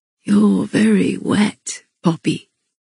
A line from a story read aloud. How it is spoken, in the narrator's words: he murmured against the aching peak of my breast